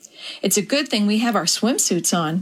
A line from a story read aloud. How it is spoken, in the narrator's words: Cheryl laughed when the salty water soaked her back